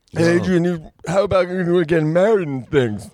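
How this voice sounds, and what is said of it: Imitates another person's voice. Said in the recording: “Sylvester Stallone ... a serviceable Sly ... Well, that's actually not bad, bro.”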